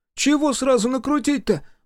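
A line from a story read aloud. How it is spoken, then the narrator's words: Joyful exclamation. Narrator (Russian): Максимка радостно воскликнул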